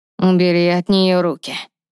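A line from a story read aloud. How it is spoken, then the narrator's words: King's growling voice. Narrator (Russian): рычащим голосом произнес король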